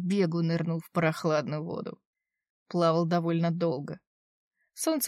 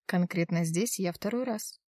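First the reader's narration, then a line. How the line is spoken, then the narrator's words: Quiet reply. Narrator (Russian): ответила она негромко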